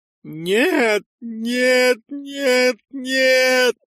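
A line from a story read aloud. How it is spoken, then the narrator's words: Voice from behind. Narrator (Russian): раздался позади голос Утмара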